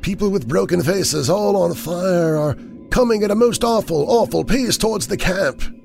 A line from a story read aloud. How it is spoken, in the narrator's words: he would moan